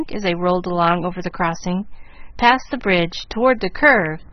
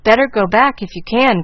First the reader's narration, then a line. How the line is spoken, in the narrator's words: cried Gus, who was anxiously peering out, and in spite of his efforts to seem at ease, not enjoying the trip a particle